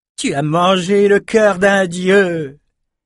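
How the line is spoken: Sudden exclamation. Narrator (French): s'écria soudain Atta

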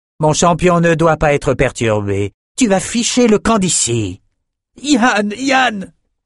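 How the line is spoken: Shouted. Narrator (French): cria Bannon

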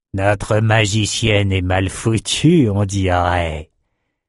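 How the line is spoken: Sneering. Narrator (French): ricana Elgin

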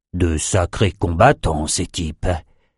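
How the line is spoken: Muttering. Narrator (French): marmonna Nathan

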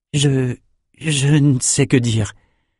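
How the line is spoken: Stammering. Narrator (French): balbutia-t-il

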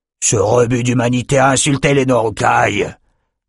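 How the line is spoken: Captain's grunt. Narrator (French): grogna le capitaine Kor

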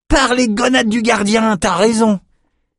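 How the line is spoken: Exclaimed. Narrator (French): s'écria Jed

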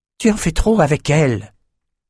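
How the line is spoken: Hissing. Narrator (French): siffla Lila

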